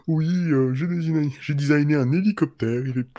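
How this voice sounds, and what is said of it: Snobbish voice as Da Vinci. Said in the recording (French): “l'accent snob ... je vois bien De Vinci en gros snob”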